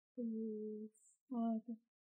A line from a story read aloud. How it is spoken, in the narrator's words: Piotr whispered into the dark